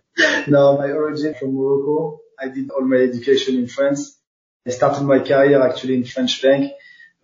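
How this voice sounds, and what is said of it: Non-British accent. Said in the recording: “from your accent, you don't come from the UK”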